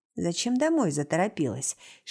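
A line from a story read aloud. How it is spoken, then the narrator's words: Quiet whisper. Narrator (Russian): шепчет тихо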